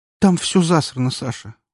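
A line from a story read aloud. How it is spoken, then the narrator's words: Dejected. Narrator (Russian): уныло произнесла она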